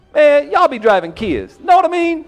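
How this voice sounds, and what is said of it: Stand-up comedian impersonation voice. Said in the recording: “his best black comedian impersonation ... it's a character”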